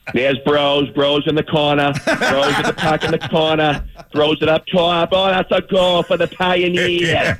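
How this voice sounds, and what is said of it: Put-on Boston accent. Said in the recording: “doing the play-by-play with the Boston accent”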